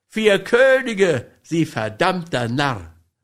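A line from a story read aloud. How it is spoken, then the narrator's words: Laughing. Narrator (German): lachte Wiley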